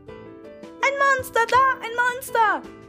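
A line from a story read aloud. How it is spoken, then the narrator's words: Child shrieking. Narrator (German): kreischte das Menschenküken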